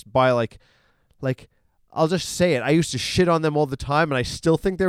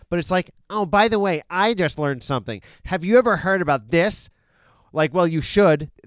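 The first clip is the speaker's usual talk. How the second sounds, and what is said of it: Snooty, pseudo-snarky put-on voice. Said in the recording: “my impression. That's my impression of the Atlantic magazine. It's like a guy who talks like this ... I'm more acting like a snooty asshole ... such a dumbass, like pseudo snarky”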